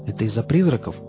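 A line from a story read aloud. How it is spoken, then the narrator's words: Plain. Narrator (Russian): спросил он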